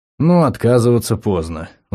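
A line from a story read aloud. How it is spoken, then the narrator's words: Sighing. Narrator (Russian): вздохнул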